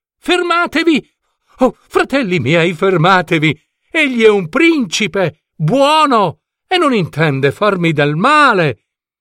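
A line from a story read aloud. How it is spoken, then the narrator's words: Loud shout. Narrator (Italian): Adelaide si alzò e gridò forte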